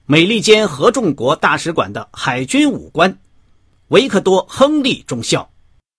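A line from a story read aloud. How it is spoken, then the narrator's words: Loud announcement in German. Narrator (Chinese): 一个司仪官 用德语大声说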